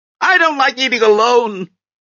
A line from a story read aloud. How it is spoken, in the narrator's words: she shouted to no one